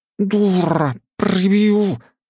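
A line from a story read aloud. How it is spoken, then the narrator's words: Angry hiss. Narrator (Russian): зашипела та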